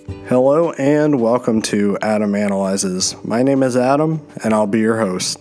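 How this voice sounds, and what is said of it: Voice sounds a little off. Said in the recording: “my voice sounds a little off, uh, that is because I am just getting over a cold”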